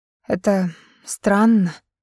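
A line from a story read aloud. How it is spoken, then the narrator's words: Earnest sigh. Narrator (Russian): вздохнула Кэрри, пытаясь быть предельно честной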